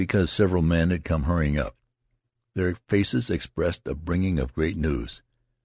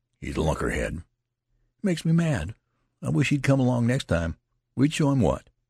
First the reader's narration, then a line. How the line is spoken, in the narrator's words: The youth exclaimed with sudden exasperation